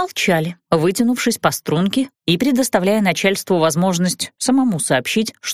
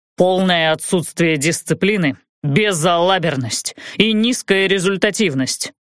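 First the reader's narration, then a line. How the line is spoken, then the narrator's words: Stern, menacing pronouncement. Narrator (Russian): грозно припечатал капитан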